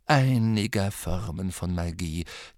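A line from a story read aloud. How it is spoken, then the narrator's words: Quiet correction. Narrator (German): korrigierte ihn Dumbledore leise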